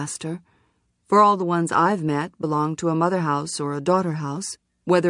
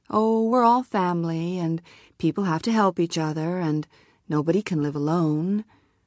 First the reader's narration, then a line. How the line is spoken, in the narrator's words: she said things like she always says